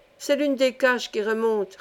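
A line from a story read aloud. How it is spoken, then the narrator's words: Plain. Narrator (French): répondit-il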